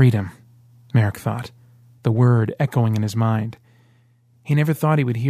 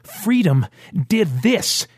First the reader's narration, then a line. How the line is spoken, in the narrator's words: shouted